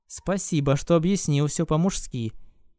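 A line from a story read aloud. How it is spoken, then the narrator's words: Plain. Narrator (Russian): сказала Люси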